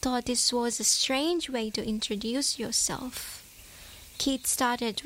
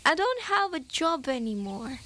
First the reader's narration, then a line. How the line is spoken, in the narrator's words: They both laughed and Helen said